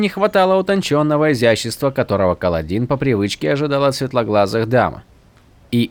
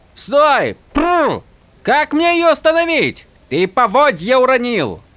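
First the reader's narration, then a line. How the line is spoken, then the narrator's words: Shouted after him. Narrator (Russian): крикнула ему вслед Дженнет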